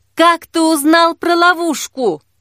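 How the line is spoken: Loud shout. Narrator (Russian): громко крикнула Жанна

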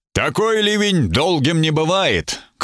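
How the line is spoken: Optimistic shout. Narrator (Russian): крикнул Гослинг оптимистически

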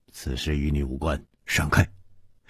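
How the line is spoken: Stern, harsh. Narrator (Chinese): 蒙面客厉声说

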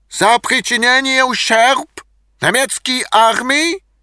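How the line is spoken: Shouting. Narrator (Russian): кричал немецкий переводчик

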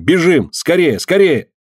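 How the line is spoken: Desperate angry shout. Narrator (Russian): словно осененный отчаянием, гневно крикнул над самым ее ухом

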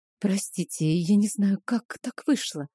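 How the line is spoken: Embarrassed whisper. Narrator (Russian): смущенно прошептала я

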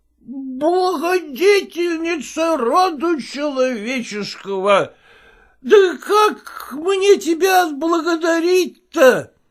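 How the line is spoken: Drunken exclamation. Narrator (Russian): воскликнул пьяным голосом писарь

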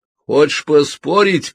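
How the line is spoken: Shouting. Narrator (Russian): крикнул

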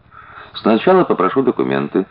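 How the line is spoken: Calm officer. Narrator (Russian): все так же спокойно произнес офицер

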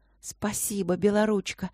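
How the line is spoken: Whisper. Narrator (Russian): прошептала невидимая Эбби

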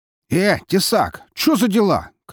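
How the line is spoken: Shout. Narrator (Russian): крикнул один из них

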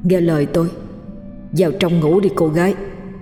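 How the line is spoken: Soft quiet voice. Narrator (Vietnamese): tiếng nói kia vô tình lại khẽ khẽ vang lên

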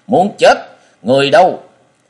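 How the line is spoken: Angry sharp call. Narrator (Vietnamese): Độc Cung chủ nhân tiếng gọi giận dữ sắc bén

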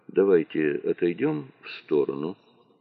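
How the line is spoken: Quiet suggestion. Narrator (Russian): тихо предложил

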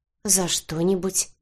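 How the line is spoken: Uncertain mutter. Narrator (Russian): неуверенно пробормотала я

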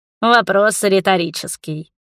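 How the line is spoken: Snorted again. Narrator (Russian): снова фыркнул Мурис

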